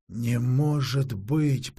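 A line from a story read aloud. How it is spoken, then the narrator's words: Moaning. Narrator (Russian): простонала Алисандра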